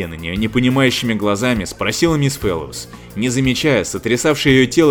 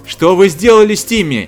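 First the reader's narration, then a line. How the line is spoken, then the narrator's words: Shouting. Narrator (Russian): крикнула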